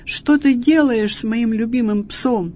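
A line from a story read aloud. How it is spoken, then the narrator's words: Shouted. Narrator (Russian): Увидев это, хозяин закричал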